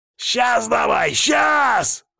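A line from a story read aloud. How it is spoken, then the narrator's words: Shrill squeal. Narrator (Russian): Мага взвизгнул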